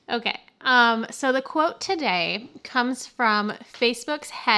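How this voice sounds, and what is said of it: Usual voice. Nothing is said of it.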